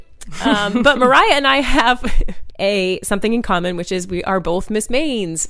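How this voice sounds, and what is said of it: Congested, stuffy-sounding voice. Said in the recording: “I'm a little stuffed up right now. So that's why I sound weird”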